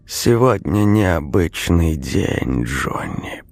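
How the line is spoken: Rustling voice. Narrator (Russian): произнес он своим шуршащим голосом

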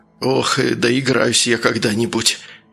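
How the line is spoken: Weary mutter. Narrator (Russian): пробормотал, когда сердце его наконец-то перестало сбоить

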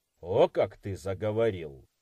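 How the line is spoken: Grumbled. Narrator (Russian): проворчал Ватанабе

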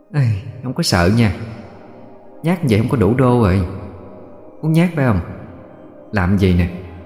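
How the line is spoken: Sighing. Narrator (Vietnamese): Cô gái liền thở dài

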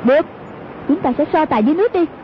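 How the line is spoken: Shouting. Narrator (Vietnamese): Hoàng Dung quát

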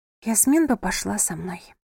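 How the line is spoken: Whisper. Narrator (Russian): прошептала София

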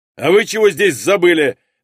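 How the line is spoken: Barked. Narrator (Russian): рявкнул на нас он

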